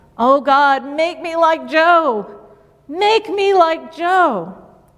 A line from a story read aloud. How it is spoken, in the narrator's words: The repentant drunk kept shouting